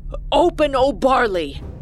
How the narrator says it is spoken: shouted at the top of his lungs

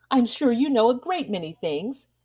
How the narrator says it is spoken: exclaimed Winterbourne

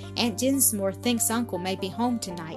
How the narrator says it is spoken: she said

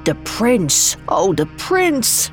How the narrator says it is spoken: murmured

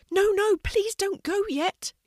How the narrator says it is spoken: shouted Berry quickly

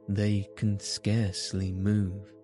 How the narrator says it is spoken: said

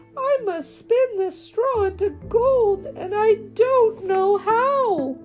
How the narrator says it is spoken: the girl cried

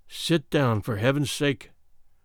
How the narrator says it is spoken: I whispered

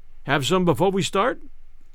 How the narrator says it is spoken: Hazard asked

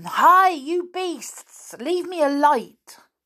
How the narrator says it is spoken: He yelled after them

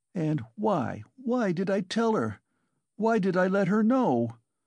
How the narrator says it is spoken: he cried a minute later in despair, looking with infinite anguish at her

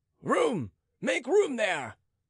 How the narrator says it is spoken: roared the royal squires

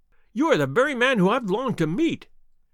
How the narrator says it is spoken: cried the little fellow

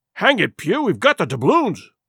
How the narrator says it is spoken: grumbled one

